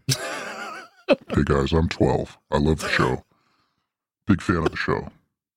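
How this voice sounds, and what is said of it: Unnaturally deep voice. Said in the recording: “Deep voice on that”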